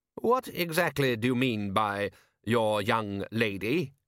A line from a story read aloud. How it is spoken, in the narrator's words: he said